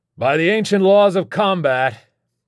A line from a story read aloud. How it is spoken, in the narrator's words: I roared to the soaring canyons of glass and concrete